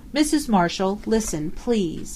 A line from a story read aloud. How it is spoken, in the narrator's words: he begged in a low voice